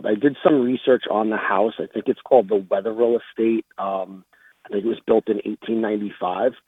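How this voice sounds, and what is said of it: Thick Long Island accent. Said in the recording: “You have such a thick Long Island accent, and I love it.”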